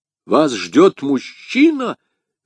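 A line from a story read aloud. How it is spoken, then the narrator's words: Exclaimed. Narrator (Russian): воскликнул Д'Артаньян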